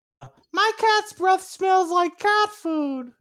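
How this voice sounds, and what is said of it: Ralph Wiggum impression. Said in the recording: “do a Ralph impression”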